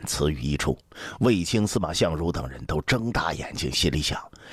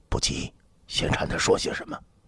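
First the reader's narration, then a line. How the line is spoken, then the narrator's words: Low voice. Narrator (Chinese): 李蔡……低声道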